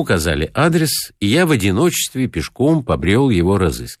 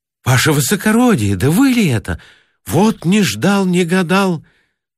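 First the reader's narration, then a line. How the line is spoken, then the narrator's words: Joyful exclamation. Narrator (Russian): радостно воскликнул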